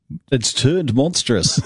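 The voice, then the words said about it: Deep, retro 1970s announcer voice. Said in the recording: “Say it in a deep voice, a 1970s voice.”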